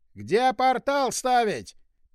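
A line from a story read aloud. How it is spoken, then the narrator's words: Yelled over the wind. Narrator (Russian): Перекрикивая гул ветра, вдруг заорал из своего аквариума колдун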